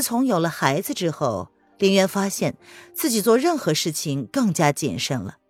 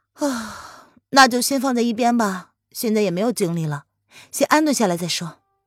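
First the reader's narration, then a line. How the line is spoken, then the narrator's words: Flat, indifferent. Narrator (Chinese): 文燕面无表情…他淡淡的说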